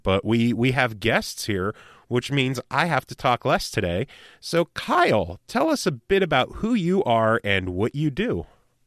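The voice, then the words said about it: Hoarse, strained voice. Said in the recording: “my voice sounds more horrible than usual, it's because I lost my voice”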